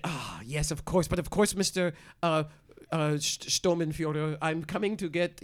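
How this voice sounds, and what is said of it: Put-on accent. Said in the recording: “are you doing accents down there? It sounds like there are two people. ... I'm practicing my accents.”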